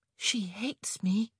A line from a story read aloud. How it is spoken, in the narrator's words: Penelope whispered